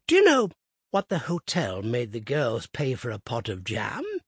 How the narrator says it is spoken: he piped

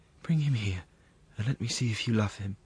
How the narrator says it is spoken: As soon as she felt a little calmer, she murmured

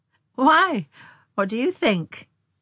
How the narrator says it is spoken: she laughed

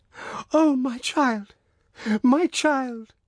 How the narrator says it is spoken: she cried, sobbing, in a sort of frenzy

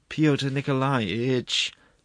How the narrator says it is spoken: moaned the prosecuting attorney

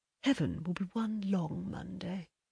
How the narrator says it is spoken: And Dennis murmured

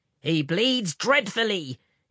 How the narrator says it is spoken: exclaimed Bertie

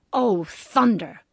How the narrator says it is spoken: growled Papa

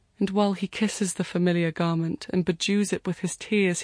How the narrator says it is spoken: he cries

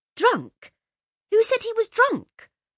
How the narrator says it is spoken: Laura turned furiously on Josie

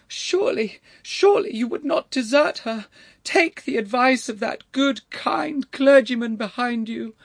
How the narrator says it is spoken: wailed the voice

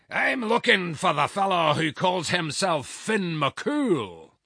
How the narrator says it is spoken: roared the giant, in a voice that shook the walls of the house

